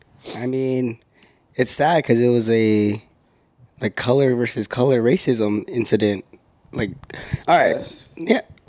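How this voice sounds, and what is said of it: Raspy, hoarse voice. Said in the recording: “I got a little sick, as you could tell by my voice, if you guys are listening. It's a little raspy right now”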